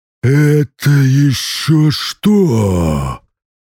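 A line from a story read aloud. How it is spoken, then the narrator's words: Roaring in a strange voice. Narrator (Russian): Я взревел и понял, что голос сейчас не мой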